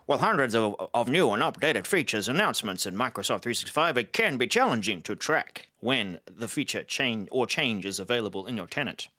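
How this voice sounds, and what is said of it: Old-time 1930s-40s news announcer voice. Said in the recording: “put on my, like, 1940s, 1930s news ... Announcer voice ... Probably loud, too.”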